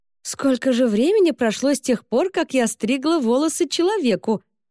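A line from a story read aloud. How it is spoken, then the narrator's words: Good-natured exclamation. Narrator (Russian): добродушно воскликнула она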